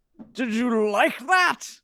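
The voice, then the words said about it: Imitates another person's voice. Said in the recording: “my Patrick Stewart impression”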